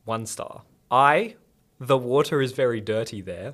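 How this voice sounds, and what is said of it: Usual voice. Nothing is said of it.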